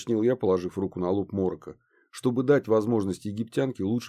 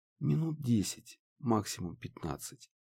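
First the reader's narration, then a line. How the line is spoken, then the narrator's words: Quiet reply. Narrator (Russian): тихо ответила Харми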